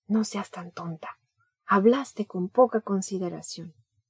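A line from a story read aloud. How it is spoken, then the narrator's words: Said quietly. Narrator (Spanish): Uno de los muchachos de noveno me dijo en voz baja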